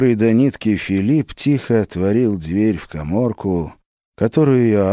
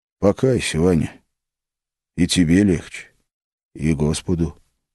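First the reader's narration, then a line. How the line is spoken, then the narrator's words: Quiet request. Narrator (Russian): тихо попросил Филипп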